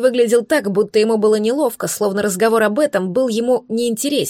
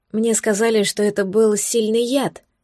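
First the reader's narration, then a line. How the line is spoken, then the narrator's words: Quiet female voice. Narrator (Russian): произнесла тихо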